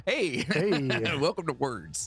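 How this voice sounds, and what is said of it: Imitates another person's voice. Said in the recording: “That was my impression of John.”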